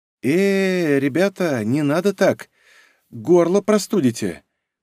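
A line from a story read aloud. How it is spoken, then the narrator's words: Trembling rustling whisper. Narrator (Russian): дрожащим голосом прошелестела Ольга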